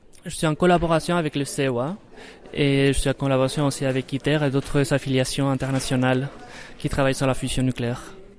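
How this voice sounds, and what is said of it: Spanish accent speaking French. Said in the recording (French): “Vous avez un accent ... je suis espagnol”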